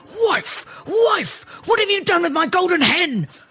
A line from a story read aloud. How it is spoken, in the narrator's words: the ogre yelling